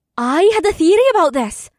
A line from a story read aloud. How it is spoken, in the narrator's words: Amber said excitedly, and she almost sounded like her usual self again